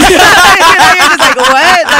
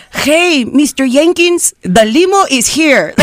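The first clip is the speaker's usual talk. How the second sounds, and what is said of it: Exaggerated stereotyped Latino accent. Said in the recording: “they wanted you to be the Latino... speaking an accent that no one ever uses... Like no one talks like that”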